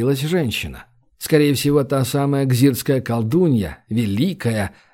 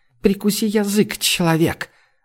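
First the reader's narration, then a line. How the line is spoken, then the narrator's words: Hissing witch. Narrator (Russian): зашипела невидимая колдунья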